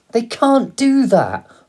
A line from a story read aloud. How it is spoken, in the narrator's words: cried